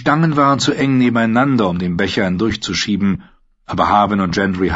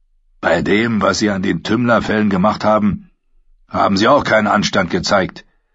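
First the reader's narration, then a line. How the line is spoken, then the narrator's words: Growling reply. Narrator (German): erwiderte der Stadtwächter knurrend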